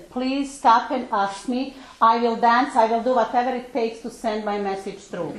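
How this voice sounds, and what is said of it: Heavy non-native English accent. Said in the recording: “I have a very heavy accent”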